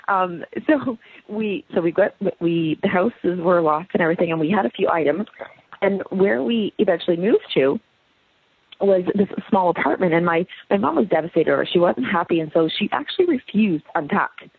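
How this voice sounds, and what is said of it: Strained, fading voice. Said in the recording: “I'm losing my voice a little bit”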